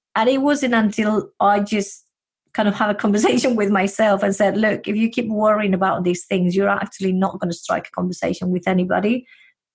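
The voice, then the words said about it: Spanish accent. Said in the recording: “I do have this Spanish accent of mine”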